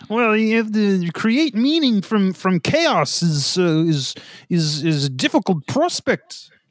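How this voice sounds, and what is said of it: Imitates another person's voice. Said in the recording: “I'm dialing in my Peterson impression ... Yeah, it's almost there.”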